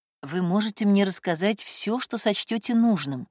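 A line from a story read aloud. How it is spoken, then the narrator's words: Soft. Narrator (Russian): продолжала Воинова мягко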